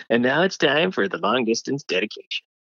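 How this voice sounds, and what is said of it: Casey Kasem radio host impression. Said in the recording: “I did a Casey Kasem impression of him introducing the long distance dedication.”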